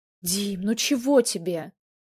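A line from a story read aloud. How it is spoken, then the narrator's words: Almost pleading. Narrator (Russian): чуть ли не взмолился Громов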